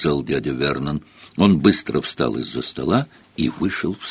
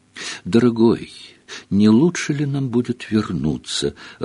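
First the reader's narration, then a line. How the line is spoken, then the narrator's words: Timid question. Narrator (Russian): робко поинтересовалась тетя Петунья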